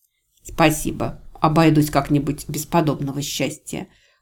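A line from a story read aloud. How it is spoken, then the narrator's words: Snapping retort. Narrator (Russian): огрызнулась я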